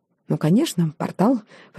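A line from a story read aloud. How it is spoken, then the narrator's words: Muttered with silly giggle. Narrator (Russian): пробормотала я и глупо захихикала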